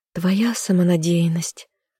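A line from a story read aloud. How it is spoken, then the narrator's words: Sighing. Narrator (Russian): вздохнула я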